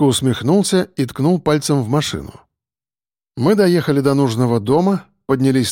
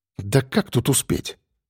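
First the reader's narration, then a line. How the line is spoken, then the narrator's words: Puzzled mutter. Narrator (Russian): озадаченно пробормотал Саня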